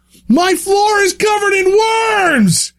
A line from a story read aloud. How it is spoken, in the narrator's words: He screamed, a B-movie audition if ever there was one